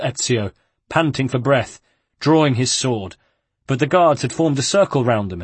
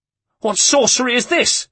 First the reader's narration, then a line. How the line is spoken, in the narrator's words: yelped Vieri, terror cutting his voice